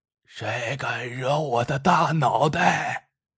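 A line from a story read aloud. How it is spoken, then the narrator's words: Hoarse shout. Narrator (Chinese): 一个嘶哑的嗓音喊道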